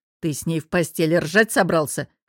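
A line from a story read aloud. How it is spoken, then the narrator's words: Smirking snort. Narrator (Russian): хмыкнул я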